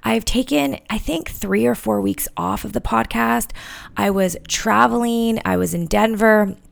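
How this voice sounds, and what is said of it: Slightly scratchy voice. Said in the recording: “my voice is a little bit scratchy... I actually got sick... I'm still not 100%”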